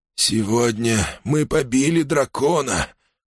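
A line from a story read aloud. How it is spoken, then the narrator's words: Breathless exhale. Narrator (Russian): выдохнул он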